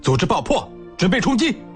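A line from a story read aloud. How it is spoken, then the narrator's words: Shouted battle cry. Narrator (Chinese): 高喊杀声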